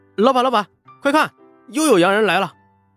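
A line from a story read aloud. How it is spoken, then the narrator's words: Excited shout. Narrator (Chinese): 伙计又喊了起来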